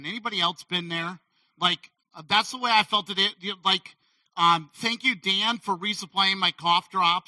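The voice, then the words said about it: Strained, failing voice. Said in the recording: “I hope my voice holds out because this is the way the winter has been ... I always feel like I'm up here losing my voice.”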